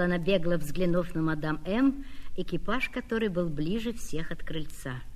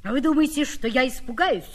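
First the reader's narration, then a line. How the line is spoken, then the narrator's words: Bold, proud, breathless cry. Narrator (Russian): вскрикнул я дерзко и гордо, не взвидев света от своей горячки, задыхаясь от волнения и закрасневшись так, что слезы обожгли мне щеки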